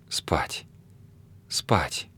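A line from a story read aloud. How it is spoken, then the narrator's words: Sleepy whisper. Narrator (Russian): опять сонно прошептала она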